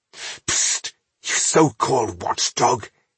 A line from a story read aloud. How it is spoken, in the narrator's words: he hissed